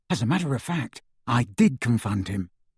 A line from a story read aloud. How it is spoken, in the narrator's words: Ron whispered to Harry